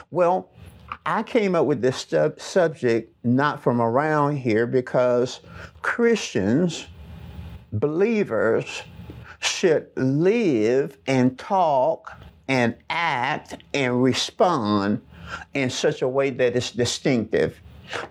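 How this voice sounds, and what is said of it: Southern American accent. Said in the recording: “most of us who live in the South, have a Southern accent. It's very distinct to others who live outside of the South”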